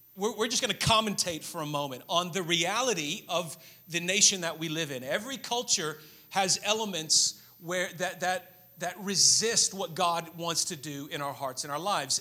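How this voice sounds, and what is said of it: American accent. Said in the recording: “I know I have an American accent”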